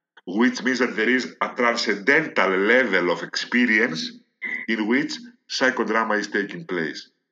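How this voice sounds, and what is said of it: Speaker's own non-native accent. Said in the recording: “excuse my accent”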